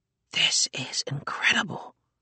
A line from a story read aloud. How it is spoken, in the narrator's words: he whispered